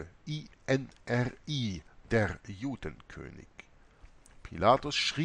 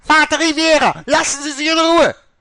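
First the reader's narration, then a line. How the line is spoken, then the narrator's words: Crying out. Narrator (German): Mutter Oberste schrie auf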